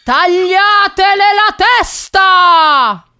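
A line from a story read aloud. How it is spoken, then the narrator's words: Queen screaming. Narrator (Italian): la regina urlò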